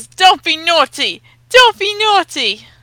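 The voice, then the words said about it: Bad put-on English accent. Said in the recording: “a bad James Corden accent”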